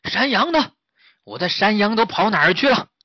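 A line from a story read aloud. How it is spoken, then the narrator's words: Angry giant shouting. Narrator (Chinese): 看见他的牢房被弄坏了，巨人气得大叫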